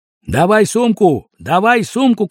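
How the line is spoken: Shouting almost in chorus. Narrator (Russian): кричали все чуть не хором

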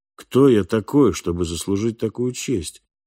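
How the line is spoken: Cold repetition. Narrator (Russian): холодно повторил Фальк

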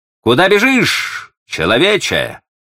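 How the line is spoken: Shout. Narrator (Russian): крикнул параличный

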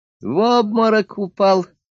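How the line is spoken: Laughing. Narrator (Russian): смеялся он

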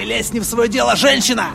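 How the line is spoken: Bark. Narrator (Russian): Рявкнул Кэлс

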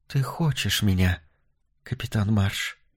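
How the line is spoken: Whisper. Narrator (Russian): прошептала она

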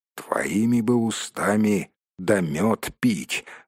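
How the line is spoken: Grumbled. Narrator (Russian): буркнул Торин

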